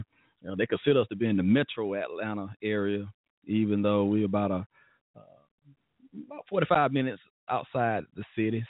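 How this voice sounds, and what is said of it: Mild Southern Alabama accent. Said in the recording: “we're from Alabama. You're going to hear some Alabama lingo. You probably hear it in my voice too, but I don't speak Southern, I guess, all the time.”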